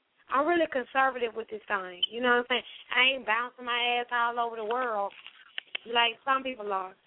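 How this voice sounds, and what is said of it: Drunken slurred speech. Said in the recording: “shout out to what I'm drinking, I'm slurring”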